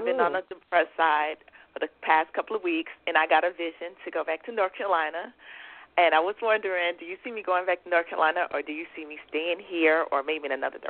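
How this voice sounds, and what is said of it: Georgia Southern accent. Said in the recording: “another one of these gorgeous accents.”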